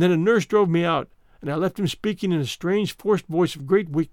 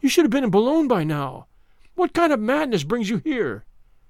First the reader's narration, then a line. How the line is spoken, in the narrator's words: I cried